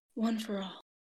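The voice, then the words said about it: Hushed voice. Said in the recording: “in a hushed voice”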